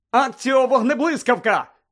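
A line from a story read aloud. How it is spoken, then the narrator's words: Shout. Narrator (Ukrainian): закричав він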